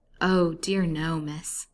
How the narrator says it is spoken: said Mary in her placid tone

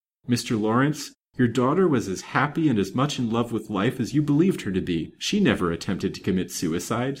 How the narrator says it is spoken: said the detective firmly

